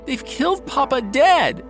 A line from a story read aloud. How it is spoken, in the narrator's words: He cries to the White House doorkeeper, Thomas Pendle